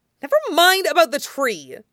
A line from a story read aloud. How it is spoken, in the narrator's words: Katara snapped